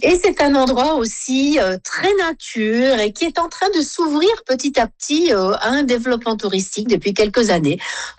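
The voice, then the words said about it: Saint-Pierre-et-Miquelon French accent. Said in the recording (French): “Vous entendez mon accent, qui est assez différent du vôtre. Et c'est celui qui est parlé ici dans l'archipel.”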